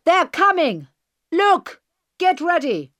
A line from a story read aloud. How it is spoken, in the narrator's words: Then suddenly the bearded man shouted